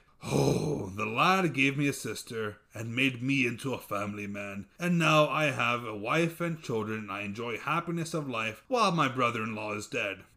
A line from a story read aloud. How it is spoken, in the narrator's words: He sighed